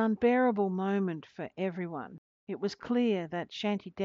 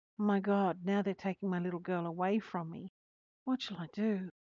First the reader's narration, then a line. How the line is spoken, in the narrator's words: whispered